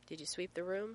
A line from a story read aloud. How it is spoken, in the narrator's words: Sam asked John